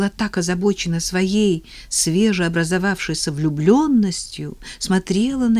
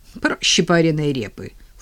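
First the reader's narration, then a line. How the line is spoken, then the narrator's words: Snorted. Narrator (Russian): фыркнула Ника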